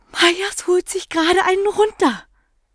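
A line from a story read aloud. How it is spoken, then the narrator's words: Panted. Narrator (German): keuchte sie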